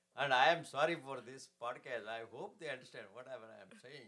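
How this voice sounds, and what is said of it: Foreign accent in English. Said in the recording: “if you are originally gosh darn it's from another country, you can never leave your accent ... I still have the accent, you can see ... my comedy used to come with subtitles”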